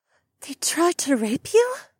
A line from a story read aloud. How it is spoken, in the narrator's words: Becca gasped